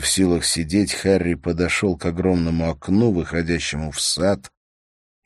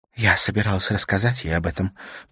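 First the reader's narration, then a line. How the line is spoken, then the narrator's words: Muffled whisper. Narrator (Russian): прошептала она сквозь прижатые к рту пальцы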